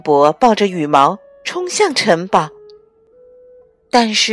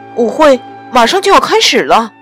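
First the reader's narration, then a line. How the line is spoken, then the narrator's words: Shouted. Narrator (Chinese): 他朝安博喊道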